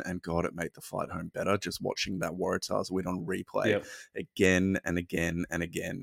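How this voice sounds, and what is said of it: Worn-out, rough voice. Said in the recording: “You can probably tell from my voice I'm a little bit worse for wear”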